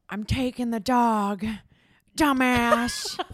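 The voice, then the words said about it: Impersonated character voice. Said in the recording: “I told you I'm good at impersonating people.”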